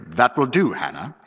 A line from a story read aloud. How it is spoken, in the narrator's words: he said curtly